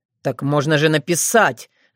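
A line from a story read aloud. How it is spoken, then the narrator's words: Spiteful tone. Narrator (Russian): злобно прищурился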